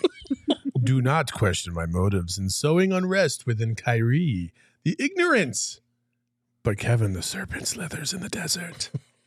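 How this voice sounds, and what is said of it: Monstrous Cthulhu character voice. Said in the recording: “in your Cthulhu voice?”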